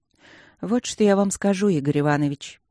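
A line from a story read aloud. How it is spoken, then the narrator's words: Sighing. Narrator (Russian): вздохнула Люджина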